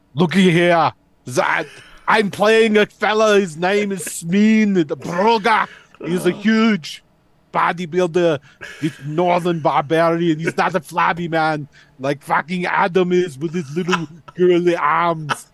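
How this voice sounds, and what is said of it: Arnold Schwarzenegger impression. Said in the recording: “his Arnold Schwarzenegger impression”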